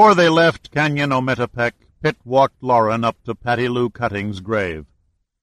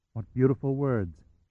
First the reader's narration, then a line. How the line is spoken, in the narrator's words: said softly